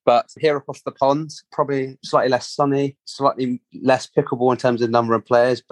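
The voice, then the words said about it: English London accent. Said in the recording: “people might recognize your accent ... I am from England, London. Slightly different accent”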